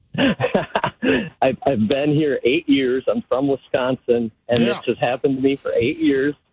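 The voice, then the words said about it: Northern US Wisconsin accent. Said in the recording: “my northern accent”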